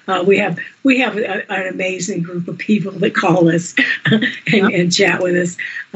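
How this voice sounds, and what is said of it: Rough, hoarse voice. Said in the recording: “my voice is a little bit rough today”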